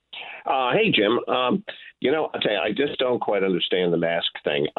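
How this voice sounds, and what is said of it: New York accent. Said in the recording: “don't let my New York accent fool you”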